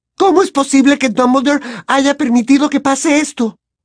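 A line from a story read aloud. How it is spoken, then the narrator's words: Sudden shout. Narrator (Spanish): gritó de pronto Hermione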